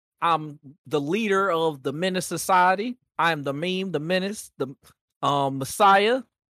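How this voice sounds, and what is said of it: Put-on accent. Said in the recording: “through that accent.”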